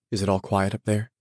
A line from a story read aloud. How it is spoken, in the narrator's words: he asked anxiously